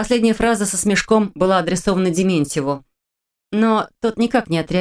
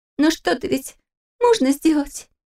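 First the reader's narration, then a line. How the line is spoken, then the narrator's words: Squeaking. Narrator (Russian): пискнула Кристина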